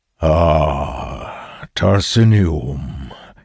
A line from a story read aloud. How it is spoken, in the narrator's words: says in a deep and resonant voice